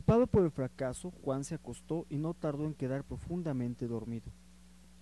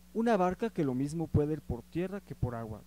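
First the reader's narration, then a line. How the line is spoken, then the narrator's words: Plain. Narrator (Spanish): respondió Juan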